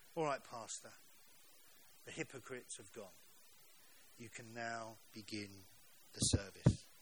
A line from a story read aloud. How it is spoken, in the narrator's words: said gently to the preacher